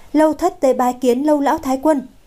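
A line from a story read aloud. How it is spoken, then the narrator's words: Loud bold call. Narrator (Vietnamese): nàng cũng không khách sáo nữa, lớn tiếng gọi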